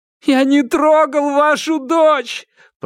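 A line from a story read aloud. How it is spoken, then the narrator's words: Sobbing. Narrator (Russian): прорыдал фрикмейстер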